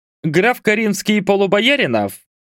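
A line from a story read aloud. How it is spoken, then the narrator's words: Angry youthful shriek. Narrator (Russian): Гневливо взвизгнул юнец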